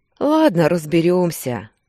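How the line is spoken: Sighing. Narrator (Russian): вздохнул Кирилл

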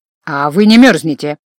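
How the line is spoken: Smirking reminder. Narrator (Russian): хмыкнув, напомнил инквизитор

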